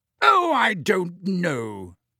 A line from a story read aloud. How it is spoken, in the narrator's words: said Madame Bones in her booming voice